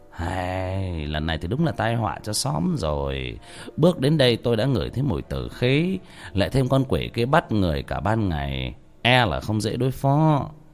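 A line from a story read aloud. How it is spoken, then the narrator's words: Sighing. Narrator (Vietnamese): ông thầy thở dài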